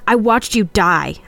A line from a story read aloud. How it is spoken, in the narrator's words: I cried